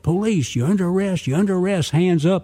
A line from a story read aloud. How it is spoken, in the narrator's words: the agent, Jerry, yelled